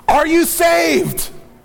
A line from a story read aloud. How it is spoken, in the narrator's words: desperately calling out